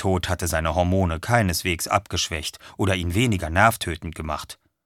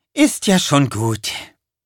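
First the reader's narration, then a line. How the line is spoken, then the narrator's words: Sighing. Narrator (German): seufzte sie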